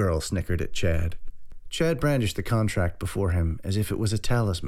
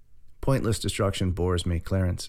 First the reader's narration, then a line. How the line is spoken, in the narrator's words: said Edwin